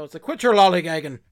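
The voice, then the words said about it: Put-on Irish accent. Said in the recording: “in my head I keep hearing it in like an Irish accent ... it sounds kind of Irish”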